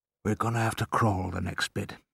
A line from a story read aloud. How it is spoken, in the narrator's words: he whispered